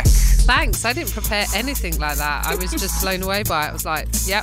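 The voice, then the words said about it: British accent. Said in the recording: “Your accent is enough of a pleasant surprise, I'm sure, for the listener. ... Anglophiles”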